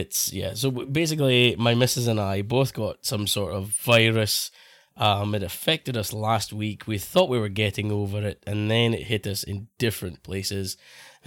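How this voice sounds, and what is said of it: Sick, hoarse voice. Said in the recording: “I've got a chest infection ... I sound sick as a dog. Because I'm half the time I'm losing my voice”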